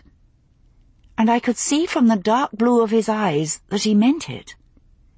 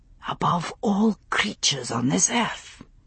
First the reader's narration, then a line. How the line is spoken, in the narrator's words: whispered